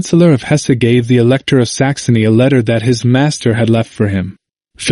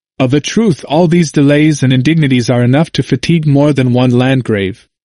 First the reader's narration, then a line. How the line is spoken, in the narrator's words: Luther highly approved of it, and exclaimed